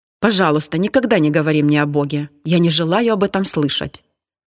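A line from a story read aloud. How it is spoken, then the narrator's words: Sharp interruption. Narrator (Russian): Он резко перебил ее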